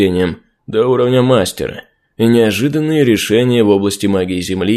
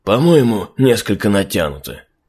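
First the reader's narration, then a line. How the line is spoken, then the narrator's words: Doubtful. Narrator (Russian): с сомнением произнес Васа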